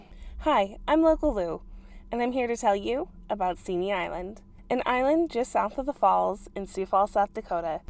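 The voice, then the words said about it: Congested, sniffly voice from a cold. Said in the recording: “tell from my voice that I've been under the weather this week ... to have the sniffles”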